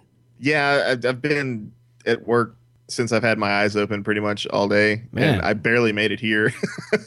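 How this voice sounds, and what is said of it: Tired, low-energy voice. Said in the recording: “Tired. ... you sound a little tired.”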